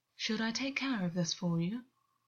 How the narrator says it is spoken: August purred deliberately, to mask what he was actually feeling

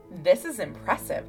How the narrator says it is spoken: said

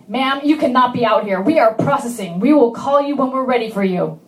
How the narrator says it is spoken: the shoe nurse yelled

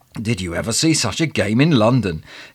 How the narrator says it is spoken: exclaimed the man next to me

